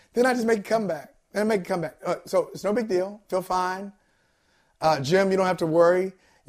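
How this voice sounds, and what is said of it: Raspy, fading voice. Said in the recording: “my voice gets a little, start to lose it, gets a little raspy”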